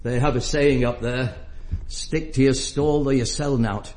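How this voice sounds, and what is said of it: Northern accent. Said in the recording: “I come from the north, you can tell by my accent.”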